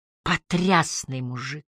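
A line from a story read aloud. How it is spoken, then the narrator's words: Breathless exclamation. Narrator (Russian): выдохнула Энджи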